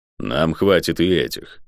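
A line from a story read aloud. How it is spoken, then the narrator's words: Grumbling mutter. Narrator (Russian): пробурчал Водор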